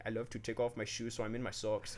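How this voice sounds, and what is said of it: Attempted German accent sounding Irish. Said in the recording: “that's like an Irish accent you just did ... I was trying to do a German”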